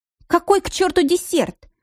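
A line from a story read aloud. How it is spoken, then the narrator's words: Snapped. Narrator (Russian): огрызнулась Лиля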